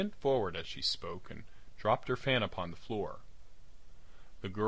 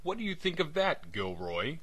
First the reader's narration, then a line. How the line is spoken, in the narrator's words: cried Wilson in a kind of ecstasy